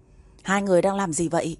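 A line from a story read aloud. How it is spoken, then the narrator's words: Cold, angry, sudden. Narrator (Vietnamese): Một giọng nói lạnh lùng pha lẫn nộ khí đột ngột vang lên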